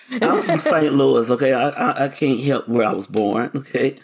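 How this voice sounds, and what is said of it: Southern accent. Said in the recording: “it's the accent. He can't say it because he has this. Southern accent going on. ... you have an accent.”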